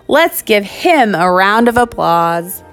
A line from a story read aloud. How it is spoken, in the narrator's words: implored them